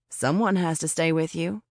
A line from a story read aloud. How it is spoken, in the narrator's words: I said